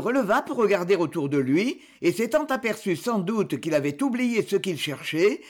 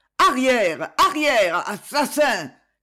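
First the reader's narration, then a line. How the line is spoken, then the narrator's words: Shouting. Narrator (French): cria-t-il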